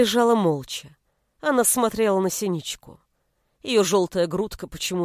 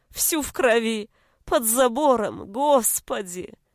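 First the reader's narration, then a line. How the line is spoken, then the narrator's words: Muffled sobbing. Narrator (Russian): Она зарыдала, уткнувшись лицом в фартук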